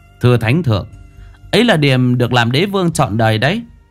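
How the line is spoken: Child, smiling, respectful. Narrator (Vietnamese): Thằng bé Đồng Lai lúc này mỉm cười thưa

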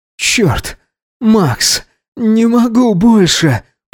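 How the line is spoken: Trembling moan. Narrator (Russian): простонал Гидеон, дрожа

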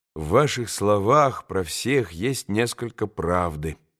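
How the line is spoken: Quiet speech. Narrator (Russian): проговорил тихо Алеша

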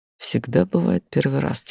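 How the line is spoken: Quiet remark. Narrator (Russian): тихо заметил

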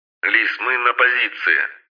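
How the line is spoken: Hissing radio, cat-like voice. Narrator (Russian): зашипела в ухе рация голосом кота

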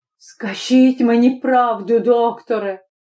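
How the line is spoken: Anguished moan. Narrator (Ukrainian): простогнав

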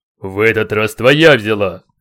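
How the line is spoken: Menacing warrior's reply. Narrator (Russian): грозным тоном ответил богатырь

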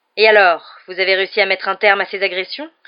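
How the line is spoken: Sneering. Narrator (French): ricana-t-il

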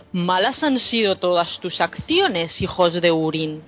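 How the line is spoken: Plain. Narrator (Spanish): dijo

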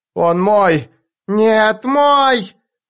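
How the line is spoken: Many voices screaming. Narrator (Russian): Голоса вопили со всех сторон

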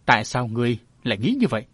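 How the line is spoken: Surprised, then loud laughter. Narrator (Vietnamese): Ban đầu lão ngạc nhiên, sau đó lại phá giọng cười lớn

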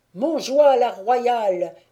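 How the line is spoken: Shouts from all sides. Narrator (French): crie-t-on de toutes parts

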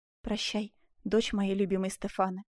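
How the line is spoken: Whisper. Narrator (Russian): прошептал он

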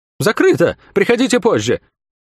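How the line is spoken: High, nervous voice. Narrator (Russian): командир сказал неожиданно высоким нервным голосом

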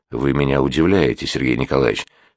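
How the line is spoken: Calm. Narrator (Russian): спокойно проговорил Деникин

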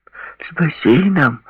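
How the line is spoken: Joyful exclamation. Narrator (Russian): Радостно воскликнул Стивен

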